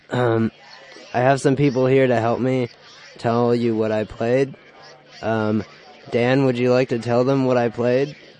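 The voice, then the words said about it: Sick, cracking voice. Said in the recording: “I'm very sick, and my voice is gonna crack constantly.”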